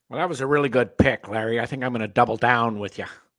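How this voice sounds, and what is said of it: Imitates another person's voice. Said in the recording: “Who are you imitating? ... Lee Hacksaw Hamilton. ... Oh, no, that's not Lee Hacksaw Hamilton.”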